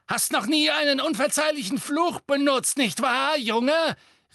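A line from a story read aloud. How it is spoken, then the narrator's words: Called out. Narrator (German): rief sie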